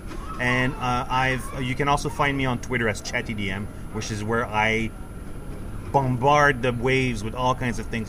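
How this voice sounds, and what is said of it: French-Canadian accent. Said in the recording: “the French-Canadian accent. I've got one, too.”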